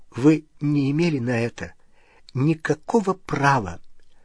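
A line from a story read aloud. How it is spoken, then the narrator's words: Faltering female voice. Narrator (Russian): она сказала дрогнувшим голосом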